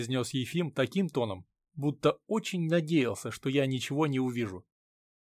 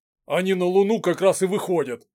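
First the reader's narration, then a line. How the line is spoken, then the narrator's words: Interjecting with a snort. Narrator (Russian): вмешался, хмыкнув, Дмитрий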